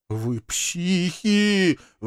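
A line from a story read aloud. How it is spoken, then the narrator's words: Full-voiced howl. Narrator (Russian): во весь голос взвыл Вик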